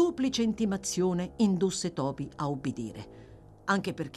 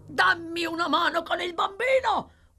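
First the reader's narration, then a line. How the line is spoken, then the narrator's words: Yelling. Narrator (Italian): urlò Sykes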